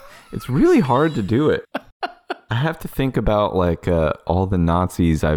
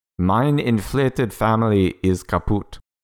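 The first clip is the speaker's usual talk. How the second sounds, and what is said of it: Put-on German accent. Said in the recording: “answering with your German accent”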